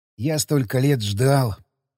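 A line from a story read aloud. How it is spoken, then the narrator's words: Whisper. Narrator (Russian): прошептал Александр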